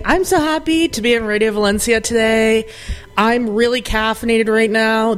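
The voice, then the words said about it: Loud, excited near-screaming voice. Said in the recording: “screaming in the mic”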